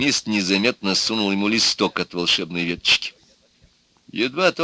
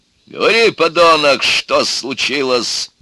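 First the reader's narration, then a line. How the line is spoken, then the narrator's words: Barking. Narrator (Russian): рявкнул он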